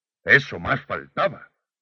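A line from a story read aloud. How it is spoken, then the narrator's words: Mildly annoyed exclamation. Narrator (Spanish): exclamé algo molesto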